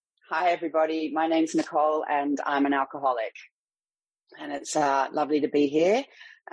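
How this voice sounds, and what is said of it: Australian accent. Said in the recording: “Sydney, Australia, which, if you can't tell from my accent, is where I'm from”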